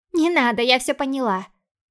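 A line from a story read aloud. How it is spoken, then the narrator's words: Dismissive snort, sister. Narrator (Russian): хмыкнула сестра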